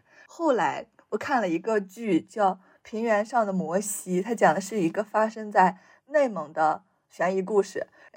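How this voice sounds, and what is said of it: Mandarin with a mild Shanxi accent. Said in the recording (Chinese): “话都有一些山西味儿，然后我们对话的时候，这个味儿可能就会更浓。但是可能和那些外省的同学说话的时候就没有这么重了 ... 口音是我的一个缺点”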